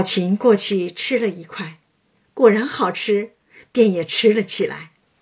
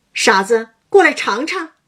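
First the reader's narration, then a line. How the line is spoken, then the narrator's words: Calling out. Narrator (Chinese): 叫道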